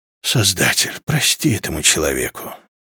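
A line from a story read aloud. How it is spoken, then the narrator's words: Sighing. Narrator (Russian): вздохнула Наре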